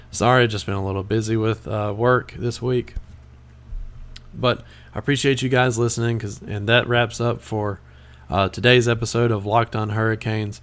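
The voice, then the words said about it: Raspy voice. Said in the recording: “my raspy voice, I apologize”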